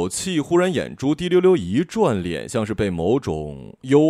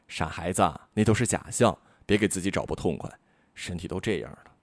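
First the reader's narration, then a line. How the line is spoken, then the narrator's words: Mild reproach. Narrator (Chinese): 妈妈只是淡淡的责备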